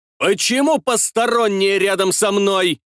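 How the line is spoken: Roar. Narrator (Russian): взревел

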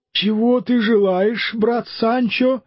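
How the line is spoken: Weak plaintive voice. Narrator (Russian): отозвался Дон Кихот таким же слабым и жалобным голосом, как и Санчо

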